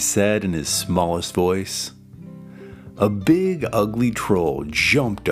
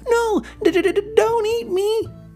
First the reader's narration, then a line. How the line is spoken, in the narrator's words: squeaked Little Billy Goat Gruff